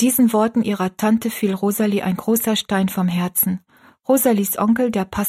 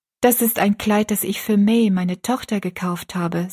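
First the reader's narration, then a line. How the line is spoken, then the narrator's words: Plain. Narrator (German): sagte sie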